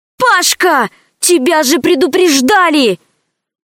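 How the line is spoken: Exasperated exclamation. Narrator (Russian): воскликнула в сердцах Алиса

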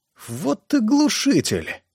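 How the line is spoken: Strained, forced out. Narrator (Russian): выдавил Чарльз Фрэк

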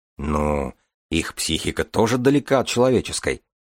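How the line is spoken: Grumbling. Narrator (Russian): проворчал Ромашин

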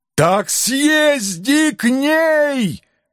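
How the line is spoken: Helpless yell. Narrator (Russian): в окончательном бессилии заорал я

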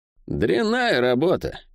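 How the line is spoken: Snorting, appraising. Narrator (Russian): фыркнула Сойка, оценивая

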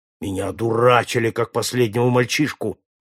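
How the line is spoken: Rough. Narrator (Russian): грубо ответил Джон

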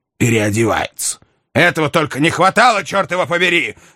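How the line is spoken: Impatient shout. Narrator (Russian): закричал с нетерпением герцог

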